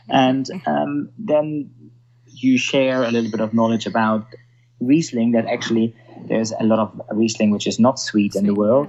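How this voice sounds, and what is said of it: German accent. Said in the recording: “I'm German, so when I come up with my Germanic accent”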